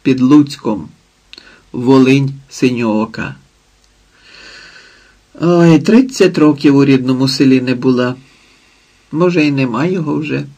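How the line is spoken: Sighed. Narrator (Ukrainian): зітхнула

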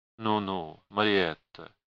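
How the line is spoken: Low voice. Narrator (Russian): проговорил он вполголоса

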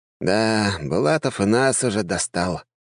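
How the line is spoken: Sighing. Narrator (Russian): вздохнул Джованни

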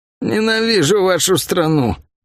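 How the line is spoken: Merchant groaning from below. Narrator (Russian): простонал снизу торговец

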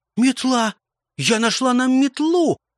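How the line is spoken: Girl, joyful shout. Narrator (Russian): радостно крикнула девочка

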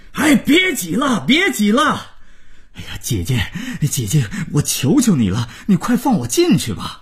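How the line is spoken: Groom's frantic shout. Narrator (Chinese): 新郎大吼着

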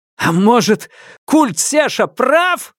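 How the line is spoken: Roaring. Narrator (Russian): взревел я

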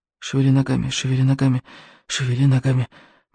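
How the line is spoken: Fish-child muttering. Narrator (Russian): бормотал рыбьенок

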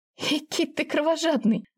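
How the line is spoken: Laughing. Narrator (Russian): засмеялась

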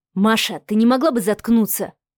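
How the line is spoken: Frowning mutter. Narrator (Russian): пробормотал Алексей, хмурясь

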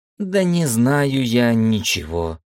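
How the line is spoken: Witch's sigh. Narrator (Russian): вздохнула ведьма

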